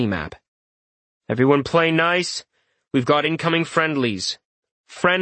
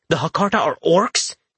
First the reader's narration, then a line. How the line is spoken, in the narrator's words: Jason splutters